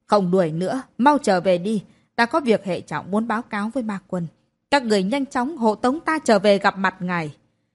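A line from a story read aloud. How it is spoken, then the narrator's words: Wounded, shouting. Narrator (Vietnamese): Mạn Sát Hồng, người đầy thương tích, lại hét lên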